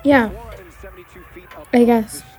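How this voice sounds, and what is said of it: Flat, unenthusiastic, tired-sounding voice. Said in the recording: “why don't you sound excited? ... Just tired.”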